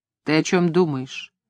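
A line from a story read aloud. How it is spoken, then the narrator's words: Soft question. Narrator (Russian): мягко спросил дядя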